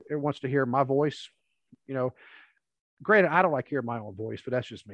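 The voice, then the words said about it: Kentucky accent. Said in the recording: “I still have that accent ... non-Kentucky folks ... the accent kind of wasn't as prevalent”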